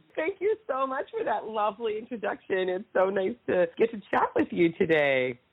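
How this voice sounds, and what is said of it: Congested, scratchy voice. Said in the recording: “you have a little bit of a cold, a little bit of congestion ... My voice is a little scratchy today”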